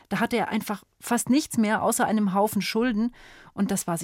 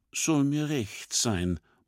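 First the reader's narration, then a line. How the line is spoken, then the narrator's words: Murmur. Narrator (German): murmelt Schubert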